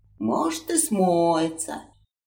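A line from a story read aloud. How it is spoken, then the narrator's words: Dyer's sigh. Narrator (Russian): вздохнул красильщик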